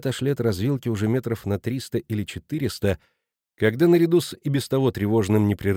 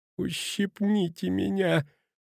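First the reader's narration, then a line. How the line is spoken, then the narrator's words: Groaning. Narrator (Russian): простонал Петрина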